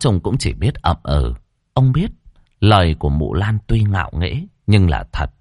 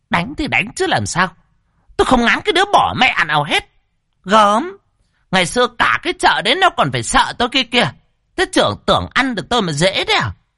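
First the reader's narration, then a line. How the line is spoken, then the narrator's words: Sneering. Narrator (Vietnamese): Mụ Lan cười khẩy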